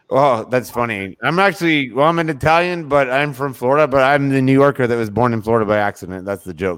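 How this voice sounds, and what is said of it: New York accent. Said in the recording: “I could kind of tell your accent was from New York.”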